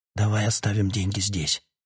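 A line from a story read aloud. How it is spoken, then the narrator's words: Helpless whisper. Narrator (Russian): беспомощно прошептал Питер Марлоу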